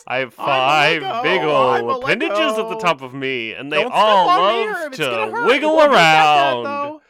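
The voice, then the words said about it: Exaggerated dad foot character voice. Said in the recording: “foot man impression ... You're really into character”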